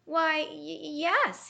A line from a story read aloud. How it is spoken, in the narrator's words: stammered